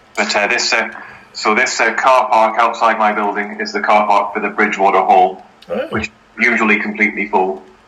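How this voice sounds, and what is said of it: Northern Irish mixed with northern English. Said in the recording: “That's not a Manchester accent. ... That's not even an Northern Ireland accent. What is that? That's Northern Ireland mixed with North England or something. ... North Ireland mixed with the North, with Cheshire, really.”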